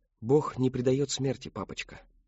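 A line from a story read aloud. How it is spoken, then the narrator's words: Plain. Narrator (Russian): сказала она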